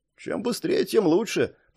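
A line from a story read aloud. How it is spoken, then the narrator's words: Muttering. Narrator (Russian): пробормотал Линс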